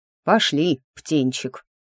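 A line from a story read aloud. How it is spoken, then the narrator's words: Showy sigh. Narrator (Russian): показушно вздохнул Сильф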